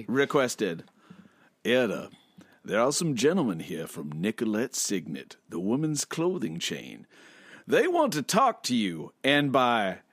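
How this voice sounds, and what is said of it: Put-on Southern American accent. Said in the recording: “I will do it with a southern accent.”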